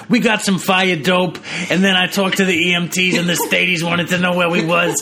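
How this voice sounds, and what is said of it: Exaggerated Boston accent. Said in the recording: “accent. Holy shit. ... the Boston accent ... I worship the Boston accent.”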